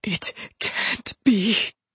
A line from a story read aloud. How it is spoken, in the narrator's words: he whispered